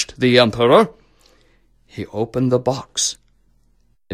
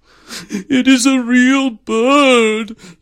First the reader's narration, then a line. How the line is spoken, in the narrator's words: sobbed the emperor